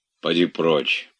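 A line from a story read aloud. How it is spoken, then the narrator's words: Grumbled. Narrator (Russian): проворчал Илья Ильич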